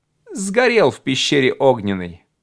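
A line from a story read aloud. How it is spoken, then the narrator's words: Plain. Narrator (Russian): сказал я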